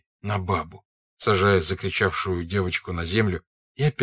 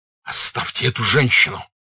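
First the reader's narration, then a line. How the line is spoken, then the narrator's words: Furious hoarse rasp. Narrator (Russian): Бешеным голосом прохрипел Пьер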